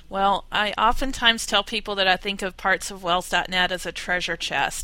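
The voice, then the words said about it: Southern US accent. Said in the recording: “my Southern accent.”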